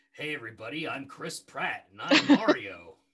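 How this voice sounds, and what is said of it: Impression of Chris Pratt as Mario. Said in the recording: “my impression of that”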